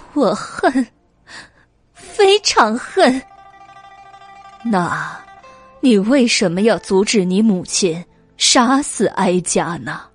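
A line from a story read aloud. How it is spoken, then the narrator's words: Tearful, through gritted teeth. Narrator (Chinese): 魏国夫人流下了血泪，咬牙切齿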